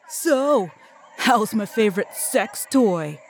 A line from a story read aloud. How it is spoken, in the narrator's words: shouted Mark, as his two sidekicks laughed loudly